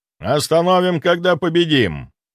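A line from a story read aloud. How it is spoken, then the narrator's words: Dry. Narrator (Russian): сухо произнес Грибоедов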